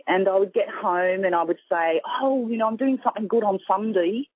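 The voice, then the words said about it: Australian accent. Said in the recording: “You have such a beautiful accent ... I'm from Sydney, Australia.”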